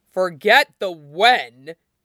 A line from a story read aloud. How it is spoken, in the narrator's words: Niaming Tui snarls